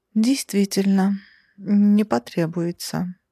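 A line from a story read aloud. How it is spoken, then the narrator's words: Sad exhale. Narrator (Russian): печально выдохнула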